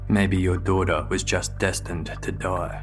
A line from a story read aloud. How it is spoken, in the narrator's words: said coldly